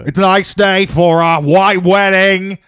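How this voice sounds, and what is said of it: Loud, bad put-on English accent. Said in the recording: “I can do like a decent like Billy Idol... That's just you talking loud with like a bad English accent... Are my headphones broken or was that terrible?... That was terrible.”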